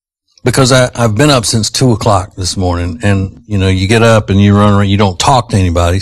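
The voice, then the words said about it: Strained voice, losing voice. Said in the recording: “Does this sound like I'm losing my voice? ... Yes. ... it sounds like I'm losing my voice.”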